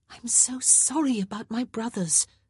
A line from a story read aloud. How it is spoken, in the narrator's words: Daphne whispered, her words coming out in a heated rush